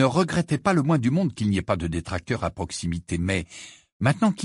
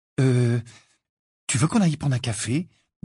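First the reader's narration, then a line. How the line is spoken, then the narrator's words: Asked timidly. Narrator (French): demanda timidement Cho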